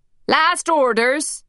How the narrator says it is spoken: shouted the barman

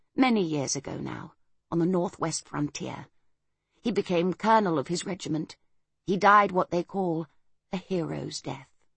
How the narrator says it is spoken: she added gently

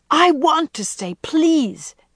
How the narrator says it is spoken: she had pleaded, looking despairingly

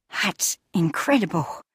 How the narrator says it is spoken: she breathed

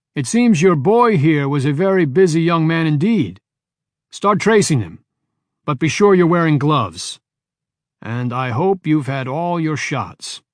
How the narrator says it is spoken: shouted

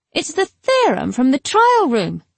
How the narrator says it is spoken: she called out

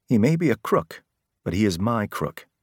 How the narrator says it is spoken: she'd said

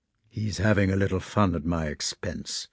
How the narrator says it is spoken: said Ermolov softly

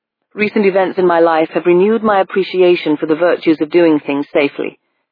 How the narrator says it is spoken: Hackworth said

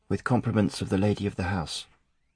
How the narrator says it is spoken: she murmured, her voice a soft lisp

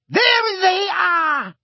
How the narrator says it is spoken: she shrieked

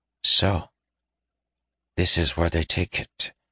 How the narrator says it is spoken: he said softly

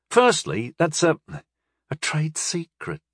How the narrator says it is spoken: Bannermore said in a hushed voice

